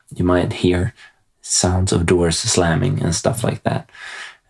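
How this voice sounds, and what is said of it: Quiet whispered speech. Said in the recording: “I'm whispering a little bit when I record this ... so I'll try to keep a little bit quiet”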